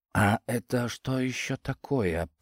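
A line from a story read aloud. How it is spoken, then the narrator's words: Whispered. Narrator (Russian): прошептал я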